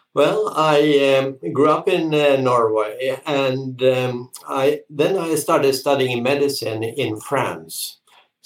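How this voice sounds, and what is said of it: Norwegian accent. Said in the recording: “this wonderful accent that you have ... you are originally from Norway”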